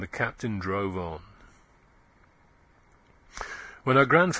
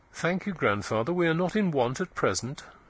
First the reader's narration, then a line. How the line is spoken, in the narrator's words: said coldly